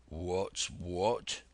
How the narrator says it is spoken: repeated one of the buccaneers in a deep growl

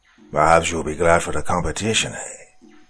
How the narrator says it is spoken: he said with a brief chuckle

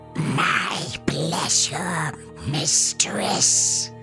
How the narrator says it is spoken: And gently, Slubnik just wheezes

